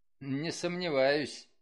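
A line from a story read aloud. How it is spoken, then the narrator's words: Snort. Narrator (Russian): хмыкнул Лон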